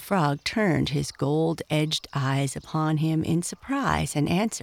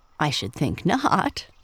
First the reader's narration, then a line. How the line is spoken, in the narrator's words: chuckled the frog